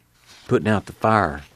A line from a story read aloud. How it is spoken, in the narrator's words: Muley whispered